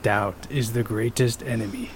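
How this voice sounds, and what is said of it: Raspy old master character voice. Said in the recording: “give us your best Master Yi impression ... He has a very raspy voice ... It's kind of like old master type ... that was pretty good”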